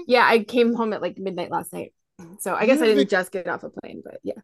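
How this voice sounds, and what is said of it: Low, sexy-sounding voice. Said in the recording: “Sexy voice because I just got off a plane from Iceland.”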